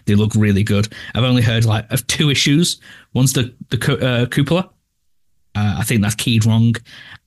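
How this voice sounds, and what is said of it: British accent. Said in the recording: “this fucking British accent just go on and on and on”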